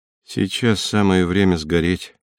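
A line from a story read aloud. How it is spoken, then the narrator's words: Calm. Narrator (Russian): спокойно сказал он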